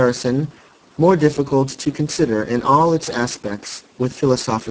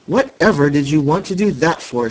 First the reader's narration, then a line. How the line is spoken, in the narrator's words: she exclaimed in scandalized astonishment